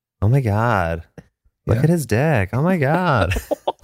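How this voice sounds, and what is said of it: Put-on American accent. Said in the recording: “Okay, American, go. ... I only know American accents from porn.”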